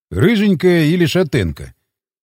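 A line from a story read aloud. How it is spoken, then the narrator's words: Hesitant sigh. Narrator (Russian): Иван помялся, но все же вздохнул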